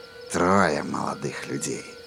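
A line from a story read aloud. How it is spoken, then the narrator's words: Purred. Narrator (Russian): промурлыкал он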